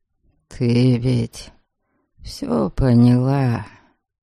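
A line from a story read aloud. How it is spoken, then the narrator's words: Wistful drawl. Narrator (Russian): тоскливо протянул Дариан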